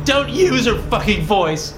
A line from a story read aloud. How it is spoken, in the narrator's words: I shout, my own voice cracking with emotion